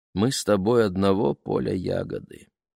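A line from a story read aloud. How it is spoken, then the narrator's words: Mother speaking sadly. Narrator (Russian): печально сказала мама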